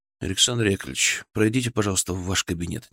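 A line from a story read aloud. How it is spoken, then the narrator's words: Quiet request. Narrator (Russian): негромко попросил я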